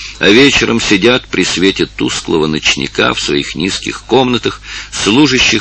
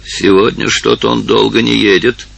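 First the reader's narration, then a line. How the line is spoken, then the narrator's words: Grumbling to herself. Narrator (Russian): ворчала она про себя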